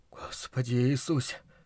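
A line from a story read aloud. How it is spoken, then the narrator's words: Whispering. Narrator (Russian): шептал Луис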